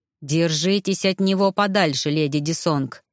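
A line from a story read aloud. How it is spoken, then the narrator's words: Menacing warning. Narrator (Russian): грозно предупредил мужчина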